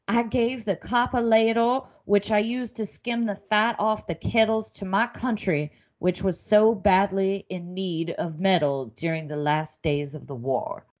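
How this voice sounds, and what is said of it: Put-on Southern belle accent. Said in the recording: “I shouldn't do that accent ... Suddenly she became a Southern belle grandma”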